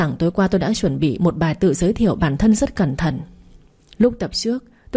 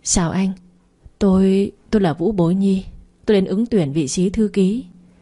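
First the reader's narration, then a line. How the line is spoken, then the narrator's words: Trembling voice. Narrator (Vietnamese): tôi run run mở miệng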